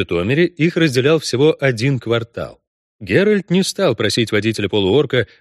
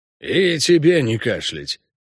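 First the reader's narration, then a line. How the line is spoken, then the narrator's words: Grumbling goblin. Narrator (Russian): пробурчал гоблин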